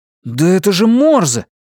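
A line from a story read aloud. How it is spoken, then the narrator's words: Sudden exclamation. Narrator (Russian): неожиданно воскликнул Джерри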